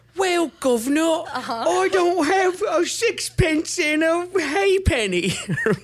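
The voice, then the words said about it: Put-on English accent. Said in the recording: “I don't do a very good English accent. ... That was really good.”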